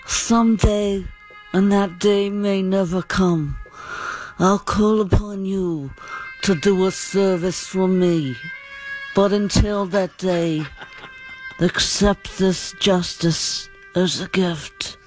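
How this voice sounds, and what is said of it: Don Corleone film character impression. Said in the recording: “one of the best impersonations that you've ever heard ... This is Don Corleone.”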